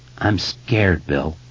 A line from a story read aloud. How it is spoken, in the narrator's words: Ben said in a wavering voice